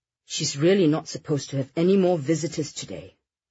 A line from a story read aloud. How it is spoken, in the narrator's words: Victoria muttered